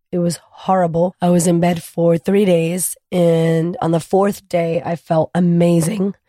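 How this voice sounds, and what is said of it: Husky, hoarse voice from illness. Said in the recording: “my very sexy voice right now because I was sick last week ... I kept this crazy cough”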